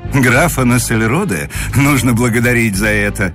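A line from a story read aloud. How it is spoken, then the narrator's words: Laughing. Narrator (Russian): смеялся Муравьев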